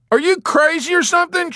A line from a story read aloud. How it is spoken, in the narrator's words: shouted Dobbs